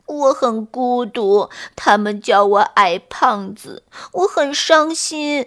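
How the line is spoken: Crying, sad. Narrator (Chinese): 癞蛤蟆哭着讲着自己的伤心事

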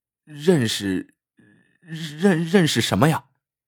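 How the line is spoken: Quick blunt talk. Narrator (Chinese): 司机快言快语的说

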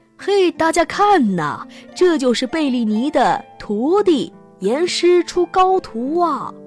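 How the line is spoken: Loud calling. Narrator (Chinese): 经纪人也高声的叫着

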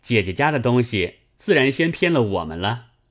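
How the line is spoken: Laughing. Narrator (Chinese): 宝玉笑道

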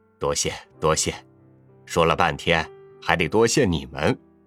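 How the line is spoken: Old man, smiling. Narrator (Chinese): 老人笑了笑

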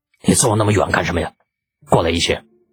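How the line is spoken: Slightly angry. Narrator (Chinese): 不由得有些发怒

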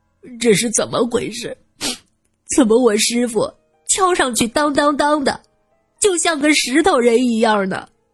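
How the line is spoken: Tearful, miserable. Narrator (Chinese): 小竹哭丧着脸说道

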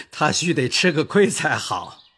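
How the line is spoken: Laughing. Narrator (Chinese): 贾珍也笑道

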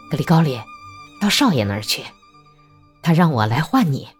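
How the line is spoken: Cheerful, grinning. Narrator (Chinese): 维尼阿明…笑嘻嘻地说道

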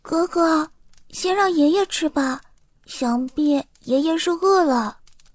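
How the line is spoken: Soft girl's voice. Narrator (Chinese): 小女孩没有伸手去接哥哥递过来的馒头，她轻声说道

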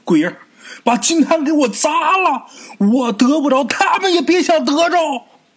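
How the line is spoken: Desperate, contorted shouting. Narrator (Chinese): 眼看着自己碰不着金坛了，三爷突然间这脸开始扭曲了，对着撑伞的妻子啊就开始喊

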